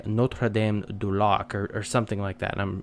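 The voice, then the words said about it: Bad put-on French accent. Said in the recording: “my terrible French accent.”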